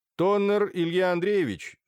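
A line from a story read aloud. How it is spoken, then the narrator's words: Stern question. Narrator (Russian): строго спросил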